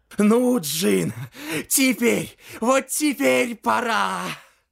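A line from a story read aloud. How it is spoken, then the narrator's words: Exhausted wheeze. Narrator (Russian): В изнеможении прохрипел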